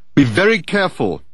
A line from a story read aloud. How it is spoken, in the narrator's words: Dirk called out to her